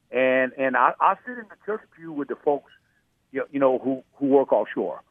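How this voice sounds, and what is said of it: South Louisiana accent. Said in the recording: “your audience can tell my accent... My accent is clearly a South Louisiana accent.”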